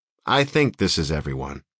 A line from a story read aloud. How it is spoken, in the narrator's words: Jess said